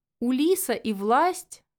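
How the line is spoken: Loud laughter. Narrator (Russian): в голос расхохотался оборотень

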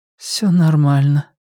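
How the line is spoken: Strange lifeless voice. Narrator (Russian): ответила она странным безжизненным голосом

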